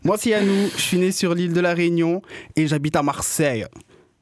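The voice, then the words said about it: Exaggerated Marseille French accent. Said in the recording (French): “j'ai été obligé d'accentuer mon accent marseillais”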